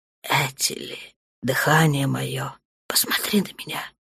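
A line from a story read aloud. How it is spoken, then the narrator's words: Dark one's whisper. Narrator (Russian): шепнул темный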